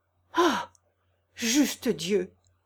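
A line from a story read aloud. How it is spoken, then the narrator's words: Exclaiming. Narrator (French): s'écria Monsieur Antoine en pâlissant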